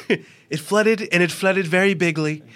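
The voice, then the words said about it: Impression of Donald Trump. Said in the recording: “I want to hear Trump talking about the flooding in New York City last week ... doing an impression game. Trump flooding.”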